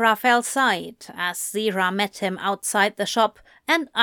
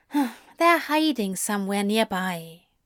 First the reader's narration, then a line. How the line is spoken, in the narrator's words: Zira sighed